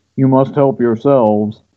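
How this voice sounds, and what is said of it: Dark, deepened imitation of another person. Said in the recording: “he says really quite darkly ... that's a really horrible Baker impression ... My voice is not manly enough to do that.”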